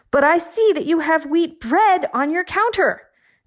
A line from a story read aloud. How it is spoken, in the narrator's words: I yelled